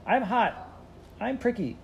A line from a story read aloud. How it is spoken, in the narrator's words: Carrie beat the Bible with her little fists and cried